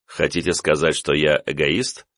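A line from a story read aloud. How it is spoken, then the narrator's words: Wry snort. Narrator (Russian): хмыкнул я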